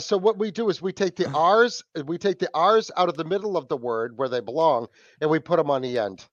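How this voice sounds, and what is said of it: Boston accent. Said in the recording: “you guys love busting my nuts about my accent ... I'm just gonna go with Boston”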